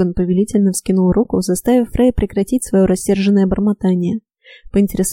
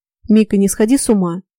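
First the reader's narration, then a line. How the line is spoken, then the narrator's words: Deep bass voice. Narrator (Russian): пробасил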